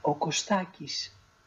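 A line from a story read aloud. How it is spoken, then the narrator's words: Very quiet. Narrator (Greek): αποκρίθηκε σιγά, μα πολύ σιγά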